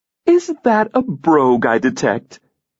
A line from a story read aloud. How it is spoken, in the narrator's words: Catherine exclaimed